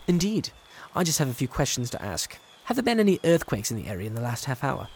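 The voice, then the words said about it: British accent. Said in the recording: “that accent. Are you from the UK?”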